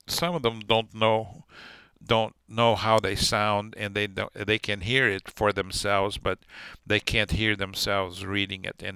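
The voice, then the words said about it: Non-native accent, monotone delivery. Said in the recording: “a little bit of my accent and English not being my first language ... often too monotonic, and sometimes it feels like it's devoid of emotion, ups and downs”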